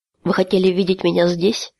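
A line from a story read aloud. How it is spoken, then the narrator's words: Even, level voice. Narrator (Russian): ровным голосом произнес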